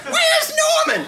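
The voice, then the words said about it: Impression of Norman's mother. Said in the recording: “I never realized I could do such a good impression of her.”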